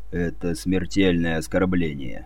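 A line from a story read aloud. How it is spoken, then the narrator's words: Grim, curt. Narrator (Russian): мрачно проронил Бампер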